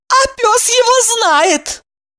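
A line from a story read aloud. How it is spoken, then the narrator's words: Bewildered remark. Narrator (Russian): Кириллов растерянно заметил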